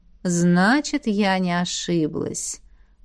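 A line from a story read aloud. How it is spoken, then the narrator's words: Satisfied purr. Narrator (Russian): удовлетворенно мурлыкнула ректор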